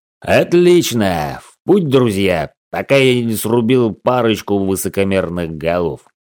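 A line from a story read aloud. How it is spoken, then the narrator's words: Mock growl. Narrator (Russian): наигранно прорычал Кон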